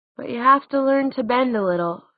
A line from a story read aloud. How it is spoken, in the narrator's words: said Clary with a yawn